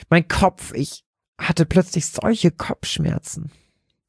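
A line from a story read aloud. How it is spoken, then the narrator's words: Sudden squeaky gasp. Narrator (German): keuchte Lotte plötzlich mit piepsender Stimme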